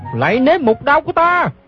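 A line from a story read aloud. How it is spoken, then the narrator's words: Shouting. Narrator (Vietnamese): Gã la lên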